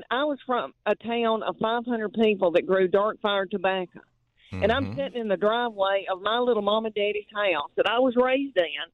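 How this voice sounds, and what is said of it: Country Southern accent. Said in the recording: “honey, you talking about country, and I and this is my voice ... people say, "Is this real?" She's putting on a fake accent ... This is how we talk.”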